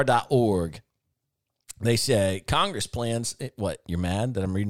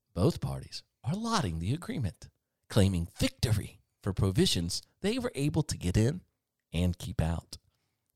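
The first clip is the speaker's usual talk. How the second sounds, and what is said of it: NPR newsreader voice. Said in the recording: “Let me get my NPR voice out.”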